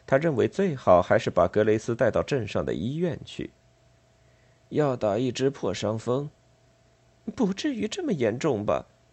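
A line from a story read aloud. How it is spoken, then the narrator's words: Plain. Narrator (Chinese): 格雷斯说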